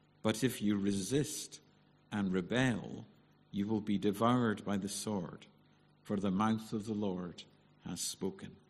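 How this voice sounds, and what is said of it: Soothing Scottish accent. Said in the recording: “Hasn't ... got a lovely voice? That soothing Scottish accent, it really is lovely.”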